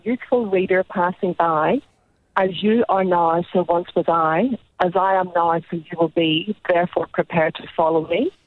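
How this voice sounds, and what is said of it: Northern Irish accent. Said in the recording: “near where I'm from in Belfast ... It sounds so nice when you say it, though, with that accent.”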